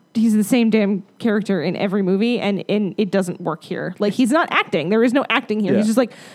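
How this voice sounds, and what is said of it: Usual voice. Nothing is said of it.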